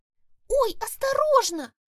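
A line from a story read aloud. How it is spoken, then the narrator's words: Squeaked. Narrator (Russian): Пискнула Маргоша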